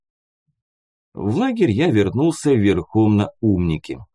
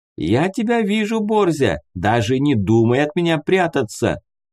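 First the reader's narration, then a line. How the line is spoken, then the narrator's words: Loud. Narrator (Russian): громко сказала Тамара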